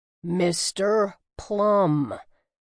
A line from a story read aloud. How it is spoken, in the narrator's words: Everick repeated slowly